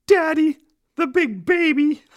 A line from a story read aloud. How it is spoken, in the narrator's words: The little boy said in a shaky voice